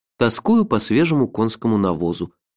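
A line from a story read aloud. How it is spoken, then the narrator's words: Gloomy declaration. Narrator (Russian): мрачно заявил я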